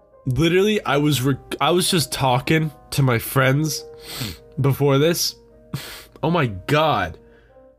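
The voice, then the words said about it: Congested, clogged-up voice. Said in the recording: “now I'm clogged, dude. Now I'm all gooked up ... Oh, I'm goopy. Oh, I'm goopy now ... this is the way I'm gonna sound, I guess.”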